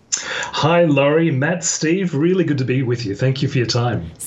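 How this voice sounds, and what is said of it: Mixed Australian-British accent. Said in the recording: “my accent is made up from a variety of things... I don't have, you know, a really Australian accent... but I don't have, you know, a plush, pommy accent either... they think I'm South African”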